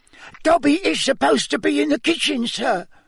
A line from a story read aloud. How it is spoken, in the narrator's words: Dobby squealed